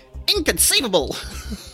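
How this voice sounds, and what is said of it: Imitates another person's voice. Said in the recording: “impersonation ... That wasn't bad. ... That was close. The Wallace Shawn is such a distinct person to try to impersonate.”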